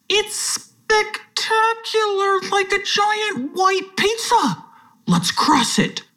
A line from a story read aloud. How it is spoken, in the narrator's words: Pushum exclaimed